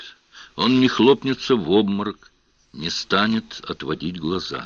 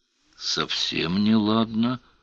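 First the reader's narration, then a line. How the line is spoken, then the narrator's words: Muttered. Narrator (Russian): пробормотал Сварог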